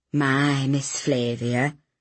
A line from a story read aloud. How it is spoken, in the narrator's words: he said quietly